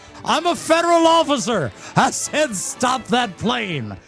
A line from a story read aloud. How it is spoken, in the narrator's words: yells